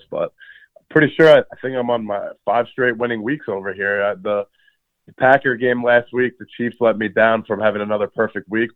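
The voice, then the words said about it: Hoarse, partly lost voice. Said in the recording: “I've lost my voice a little bit, coughing”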